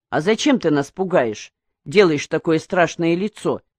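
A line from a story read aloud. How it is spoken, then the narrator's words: Plain. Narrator (Russian): спросил Калан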